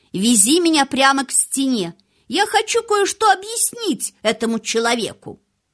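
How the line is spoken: Loud. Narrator (Russian): он громко сказал Дикину

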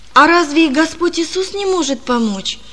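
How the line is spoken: Frightened boy asking. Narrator (Russian): спросил мальчик испуганно

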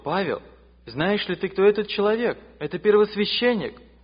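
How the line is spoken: Exclamation from crowd. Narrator (Russian): В толпе кто-то воскликнул

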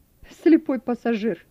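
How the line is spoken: Laughing. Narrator (Russian): засмеялся Вернер ему вслед

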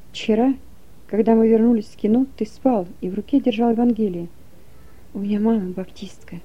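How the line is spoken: Soldier whispering. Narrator (Russian): солдат Коля Глухин и говорит шепотом

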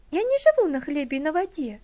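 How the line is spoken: Slightly indignant. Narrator (Russian): слегка возмущенно ответила Элси

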